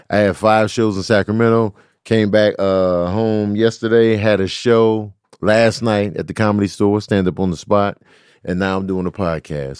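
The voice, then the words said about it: Ragged, worn-out hoarse voice. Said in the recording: “apologize for my voice. I ran it ragged this weekend in Sacramento ... it's a little raggedy right now ... It's just worn and torn and ragged and beat down.”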